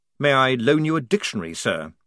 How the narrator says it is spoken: snapped De Word, going red in the face

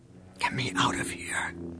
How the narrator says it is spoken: she whispered to Luke

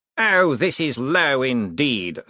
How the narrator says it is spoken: snarled Cosmo

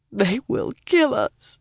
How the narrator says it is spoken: the other woman mumbled faintly and nearly unintelligibly through her sobs

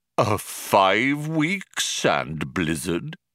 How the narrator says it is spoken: said Deep Thought haughtily

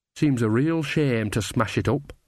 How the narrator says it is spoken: said Nanny sadly

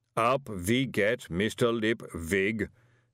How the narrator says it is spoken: said the booming voice

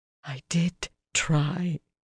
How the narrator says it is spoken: she said finally, in a breathy tone

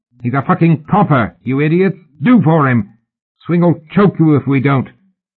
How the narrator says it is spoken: The muffled man raised his voice

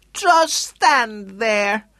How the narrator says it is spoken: yelled at him

